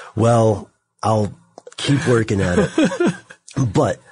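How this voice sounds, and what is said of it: Usual voice. Nothing is said of it.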